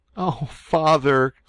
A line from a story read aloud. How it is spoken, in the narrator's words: said he, sobbing